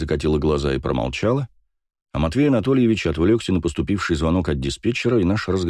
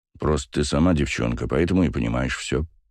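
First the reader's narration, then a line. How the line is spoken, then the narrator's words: Grumbling. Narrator (Russian): проворчал Басов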